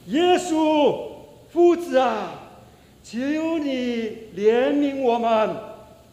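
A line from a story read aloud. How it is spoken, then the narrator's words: Loud repeated crying out. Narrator (Chinese): 不断的在那边大声叫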